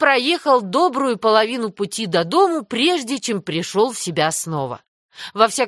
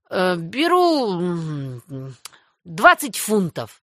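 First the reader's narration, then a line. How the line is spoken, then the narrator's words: Frightened mumble. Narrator (Russian): промямлил Мэтью, покрываясь холодным потом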